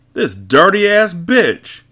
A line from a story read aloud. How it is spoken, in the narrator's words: he yelled